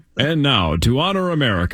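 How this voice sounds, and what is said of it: Alan Roach announcer impression. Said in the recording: “good Alan Roach impression ... That sounds like an Alan Roach clip”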